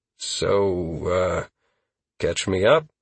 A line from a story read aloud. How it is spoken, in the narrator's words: Constantine sighed before starting, with frustration